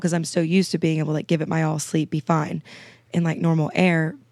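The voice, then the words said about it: Raspy, slightly congested voice. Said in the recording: “I'm a little sick right now... I'm always kind of raspy... I've been kind of sinusy the past few days”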